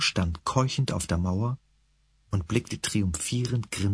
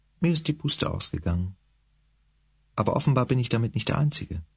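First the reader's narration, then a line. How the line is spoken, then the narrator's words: Sad. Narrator (German): sagte traurig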